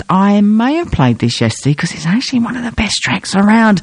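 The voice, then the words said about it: Whispering. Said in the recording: “I don't know why I'm whispering,”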